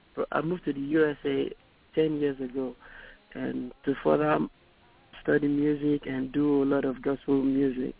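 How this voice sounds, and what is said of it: Nigerian accent. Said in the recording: “I love the accent. ... a native of Nigeria”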